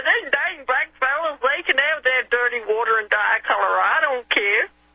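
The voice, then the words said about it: Put-on Southern American accent. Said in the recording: “I'm putting on a southern accent”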